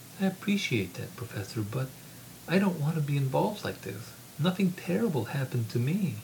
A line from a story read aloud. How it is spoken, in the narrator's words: Sarah said in an exasperated tone